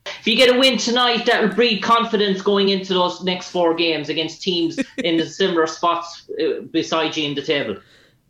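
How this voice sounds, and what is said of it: Irish accent. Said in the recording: “Ireland. ... I like your accent. It's tough. I want to learn how to talk like that. ... that's how all my cousins in Ireland talk.”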